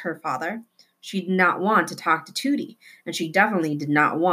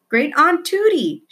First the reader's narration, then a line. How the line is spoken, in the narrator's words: she shouted